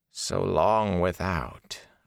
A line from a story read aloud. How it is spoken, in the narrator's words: Agenor said softly